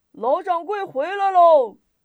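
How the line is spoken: Distant shout. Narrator (Chinese): 有人高喊

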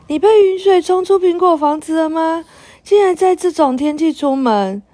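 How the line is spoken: Surprised cry. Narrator (Chinese): 佩特娜拉，苹果树小人惊讶的叫

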